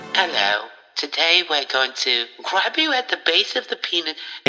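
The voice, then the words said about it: Put-on English accent. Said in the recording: “English accent”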